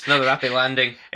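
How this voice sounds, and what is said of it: Poor Scottish Obi-Wan impression. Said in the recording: “the Scottish version of Obi-Wan's lines ... we don't do a good accent”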